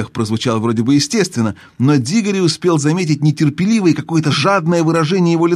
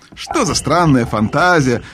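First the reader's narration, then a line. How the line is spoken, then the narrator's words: Laughing. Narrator (Russian): рассмеялся дядя Эндрю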